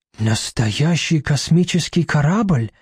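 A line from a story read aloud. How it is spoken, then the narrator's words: Thoughtful. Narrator (Russian): задумчиво произносит Барахлюш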